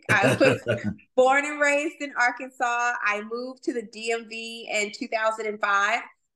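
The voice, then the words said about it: Southern twang accent. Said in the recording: “So the twang that you hear is authentic.”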